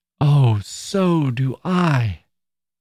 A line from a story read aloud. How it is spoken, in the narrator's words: cried Miss Glyde